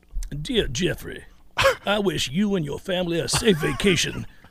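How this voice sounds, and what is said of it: Put-on South Carolinian accent. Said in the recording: “read Marcus's post in the chat in Brian Kelly voice ... That is just a South Carolinian accent there”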